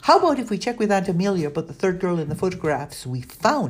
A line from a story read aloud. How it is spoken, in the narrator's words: asked Danny, speaking so quickly her words almost tripped over each other